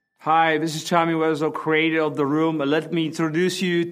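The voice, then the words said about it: Strange, hard-to-place accent. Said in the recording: “This guy has a weird accent that we can't really figure out.”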